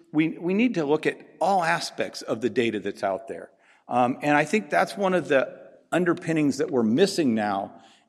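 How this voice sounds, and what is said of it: Speaks with a noticeable accent. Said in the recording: “my accent will probably throw you”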